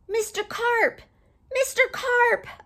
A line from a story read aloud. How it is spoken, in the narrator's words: I yelled